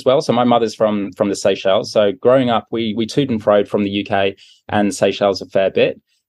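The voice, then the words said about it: British accent. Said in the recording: “as well as being British, as you can no doubt tell from my accent”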